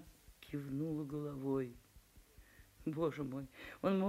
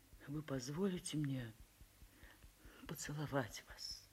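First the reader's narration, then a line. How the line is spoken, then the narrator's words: Trembling voice. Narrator (Russian): весь дрожа, трепещущим голосом спросил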